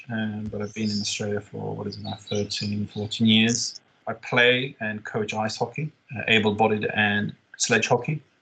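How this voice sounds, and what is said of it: Swedish accent in English. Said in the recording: “There's an accent you can pick up. It's Swedish.”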